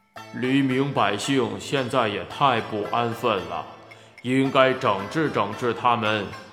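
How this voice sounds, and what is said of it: Booming, thunder-like voice. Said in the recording (Chinese): “雷鸣似的声音”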